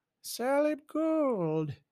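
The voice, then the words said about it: Bad Goldmember impression. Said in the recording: “That was the worst gold member impersonation ever.”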